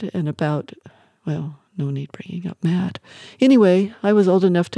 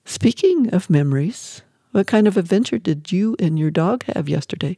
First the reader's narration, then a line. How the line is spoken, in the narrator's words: He chuckled